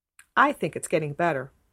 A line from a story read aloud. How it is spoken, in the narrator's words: said Catherine firmly